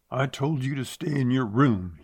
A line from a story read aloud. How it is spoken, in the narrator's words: he snarled